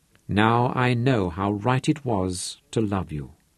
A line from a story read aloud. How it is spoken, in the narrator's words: he said softly